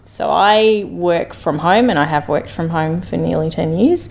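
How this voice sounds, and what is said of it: Australian (Melbourne) accent. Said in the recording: “you can probably tell from my accent that I'm originally a Melbourneite”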